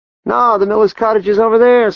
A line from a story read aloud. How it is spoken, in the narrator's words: someone called out